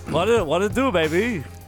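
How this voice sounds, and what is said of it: Imitates another person's voice. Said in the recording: “Is that your Arnold? Is that your Arnold impression? ... That was like the worst part of that commercial.”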